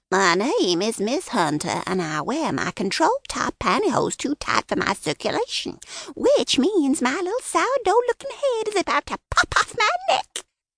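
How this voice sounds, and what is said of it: Mocking falsetto voice, under breath. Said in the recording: “said under his breath in a falsetto”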